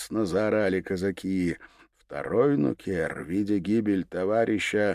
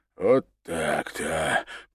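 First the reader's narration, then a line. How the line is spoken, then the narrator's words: Rasped. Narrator (Russian): прохрипел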